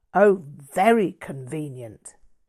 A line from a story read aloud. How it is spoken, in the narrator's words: Todd snapped